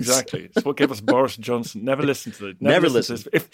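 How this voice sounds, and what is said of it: Posh Oxbridge English accent. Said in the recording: “a great Oxbridge accent”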